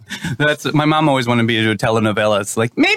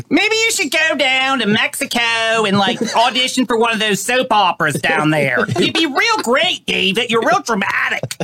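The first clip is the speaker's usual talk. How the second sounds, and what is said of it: Twangy South Jersey accent imitation. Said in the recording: “Your mom had a southern accent. ... That's exactly how my mom sounds. ... It's southern and Manhattan. ... It's south, it's South Jersey. It's a little twangy”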